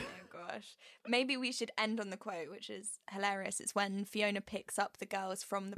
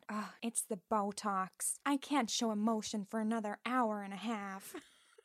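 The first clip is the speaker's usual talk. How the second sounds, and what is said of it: Impression of Fiona. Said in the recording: “good your impression is”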